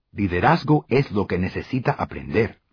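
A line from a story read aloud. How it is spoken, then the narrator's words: Plain. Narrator (Spanish): dijo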